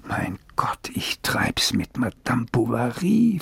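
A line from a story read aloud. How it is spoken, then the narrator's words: Quiet whisper. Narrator (German): flüsterte er einmal im Stillen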